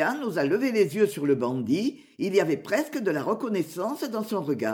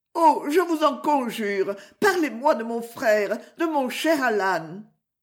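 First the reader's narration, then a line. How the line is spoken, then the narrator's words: Exclaimed. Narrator (French): s'écria Marianne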